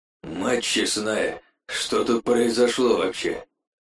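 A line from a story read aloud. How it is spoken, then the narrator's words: Strained, forced out. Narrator (Russian): Выдавил из себя техник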